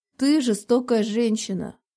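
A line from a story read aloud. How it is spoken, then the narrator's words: Muttered. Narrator (Russian): пробурчала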